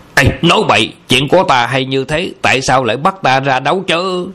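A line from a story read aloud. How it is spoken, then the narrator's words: Angry retort. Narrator (Vietnamese): Âu Dương Phong giận dữ cãi lại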